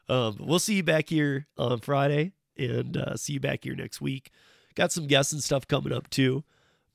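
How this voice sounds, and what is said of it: Hoarse, partly lost voice. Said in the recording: “I'll have my voice back. As you can hear, it's probably going a little hoarse right now, too. ... somehow lost the voice a little bit.”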